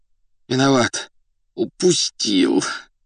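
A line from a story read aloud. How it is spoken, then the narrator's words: Muffled groan. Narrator (Russian): глухо простонал он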